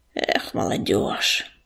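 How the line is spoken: Grumbled. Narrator (Russian): пробурчал он

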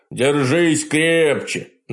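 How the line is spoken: Mocking snort. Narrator (Russian): насмешливо фыркнул он

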